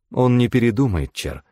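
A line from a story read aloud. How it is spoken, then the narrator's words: Sad. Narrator (Russian): сказала незнакомка, грустно покачав головой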